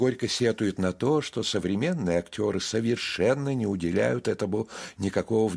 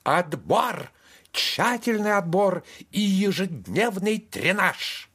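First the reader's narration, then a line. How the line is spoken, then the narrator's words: Near-shrieking conclusion. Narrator (Russian): она почти взвизгивает и заключает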